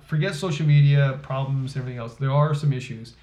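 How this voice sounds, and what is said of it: Slightly slurred speech. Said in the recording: “you put me too much scotch in me... I'm slurring my words.”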